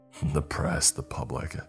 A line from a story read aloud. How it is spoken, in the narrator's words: he said scornfully